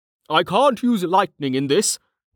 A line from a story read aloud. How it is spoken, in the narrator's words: Jameis cried